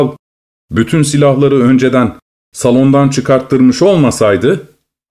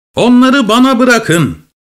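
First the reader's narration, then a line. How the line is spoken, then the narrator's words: Lame frog shouting. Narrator (Turkish): diye haykırıyordu aksak kurbağa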